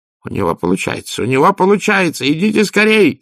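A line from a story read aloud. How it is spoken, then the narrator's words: Shouted. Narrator (Russian): закричал Людзе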